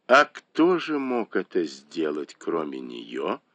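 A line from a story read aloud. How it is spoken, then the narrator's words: Cold smirk. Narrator (Russian): холодно усмехнулась Цзиньгуй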